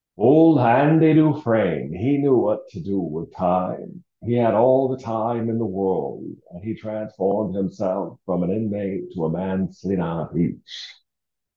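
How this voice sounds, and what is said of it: Impression of a movie character's voice. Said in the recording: “my impersonation of Old Red, one of the best movies of all time, The Shawshank Redemption”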